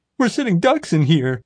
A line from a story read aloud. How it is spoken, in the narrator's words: wailed